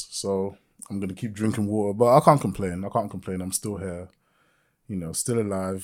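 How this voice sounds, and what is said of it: Sick-sounding voice. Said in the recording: “I've been sick. I've been sick for like a month. ... you could probably hear it in my voice.”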